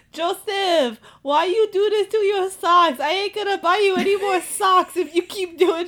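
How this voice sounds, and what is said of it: Imitated Filipino mother's voice. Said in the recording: “does her voice ... his Filipino mom”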